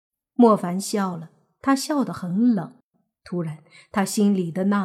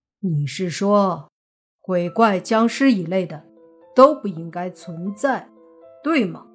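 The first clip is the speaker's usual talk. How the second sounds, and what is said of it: Cold, icy voice. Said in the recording (Chinese): “冷若寒冰的声音”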